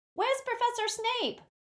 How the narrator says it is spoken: shouted a girl from the Slytherin table

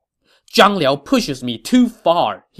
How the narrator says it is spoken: said angrily

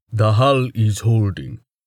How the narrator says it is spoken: Tolhard said with a rumble

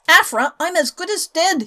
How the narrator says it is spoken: he howled

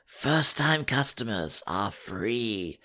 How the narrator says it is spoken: she whispers

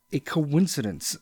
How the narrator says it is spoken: stammered the old man

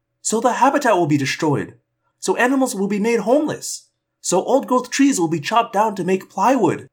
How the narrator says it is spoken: cried

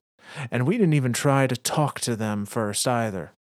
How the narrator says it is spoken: Reed yells

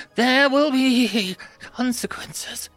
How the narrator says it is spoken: she stammered

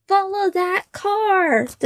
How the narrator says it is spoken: cried

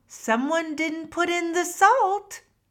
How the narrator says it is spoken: Halo called out

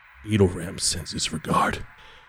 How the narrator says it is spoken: somebody whispers into your ear

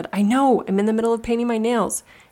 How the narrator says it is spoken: snapped and said

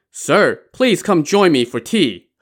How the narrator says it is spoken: He Tao called out to this clerk

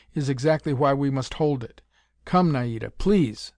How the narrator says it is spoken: Kirby said firmly

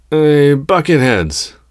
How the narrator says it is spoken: she yelled at the troopers

